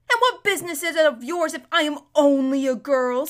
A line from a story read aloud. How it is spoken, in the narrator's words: snapped